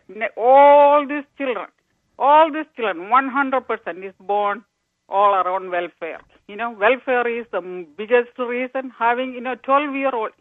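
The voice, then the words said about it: Indian English accent. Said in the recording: “I'm from India. ... I can tell from your accent.”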